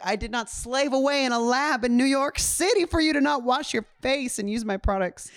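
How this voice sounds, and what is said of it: Inconsistent put-on accent, wavering. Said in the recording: “I love how his accent just went all over the place.”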